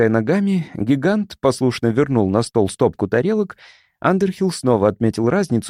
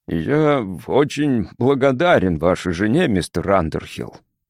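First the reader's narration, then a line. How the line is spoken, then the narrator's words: Deep booming bass. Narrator (Russian): прогудел он глубоким басом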